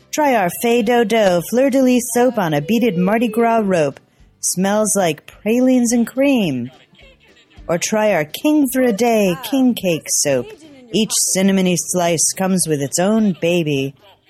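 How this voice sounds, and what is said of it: Imperfect put-on Cajun accent. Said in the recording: “we admit our Cajun accent isn't finely honed”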